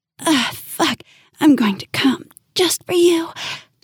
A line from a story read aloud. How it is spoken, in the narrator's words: she panted into my ear